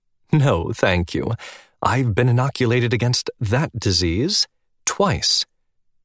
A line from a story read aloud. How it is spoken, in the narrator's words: Blanche chuckled, said cheerfully